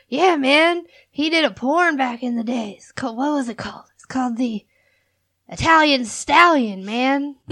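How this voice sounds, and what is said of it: Imitates another person's voice. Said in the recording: “I'm gonna make his, I'm gonna do his voice and everything ... I do a pretty good impression of him, don't I? You do. That's pretty good.”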